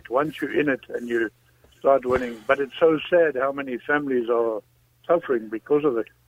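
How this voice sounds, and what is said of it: South African accent. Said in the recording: “I detect an accent there ... South Africa.”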